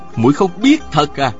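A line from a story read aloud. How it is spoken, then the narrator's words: Cold, curt. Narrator (Vietnamese): Tào Vân Kỳ lạnh lùng sẵn giọng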